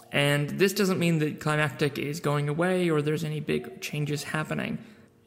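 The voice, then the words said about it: American-ish accent. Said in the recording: “despite my American-ish accent, I'm a Kiwi”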